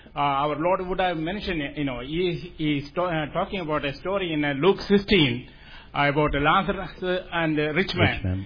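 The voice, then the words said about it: Non-native English accent. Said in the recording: “I'm sorry for my accent”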